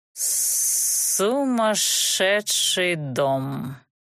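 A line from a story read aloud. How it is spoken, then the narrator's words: Feelingly pronounced. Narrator (Russian): с чувством изрек Рычарк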